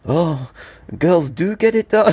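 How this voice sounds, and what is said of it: Put-on French accent. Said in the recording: “my great French accent”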